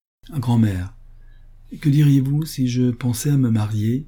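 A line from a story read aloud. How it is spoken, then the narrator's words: Timid question. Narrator (French): Cette question fut posée timidement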